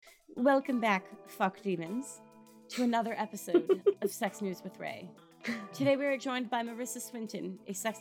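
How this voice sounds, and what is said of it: Old-fashioned vaguely British accent. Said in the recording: “how, like, 1950s people speak with, like, a weird, vaguely British accent that isn't British.”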